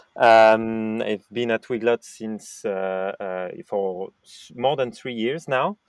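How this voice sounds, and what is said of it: French accent in English. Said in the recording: “I, am French, as you said, and might have guessed with my French accent in English.”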